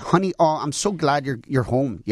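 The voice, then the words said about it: Put-on Minnesota accent. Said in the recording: “Should I do your voice? ... That's more Minnesota.”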